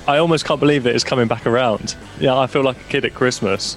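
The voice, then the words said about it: Excited, energetic voice. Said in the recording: “I'm incredibly excited, as you can probably tell by my voice.”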